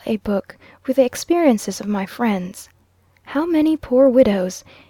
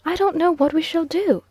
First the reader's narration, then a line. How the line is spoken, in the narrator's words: exclaimed Mrs